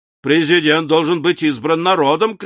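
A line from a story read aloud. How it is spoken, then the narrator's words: Shouted. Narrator (Russian): крикнул Барбикен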